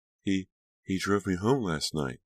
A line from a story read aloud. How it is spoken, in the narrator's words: Delia replied shakily